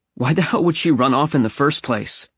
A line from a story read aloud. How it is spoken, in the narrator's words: Briggs groaned, deep and kind of sad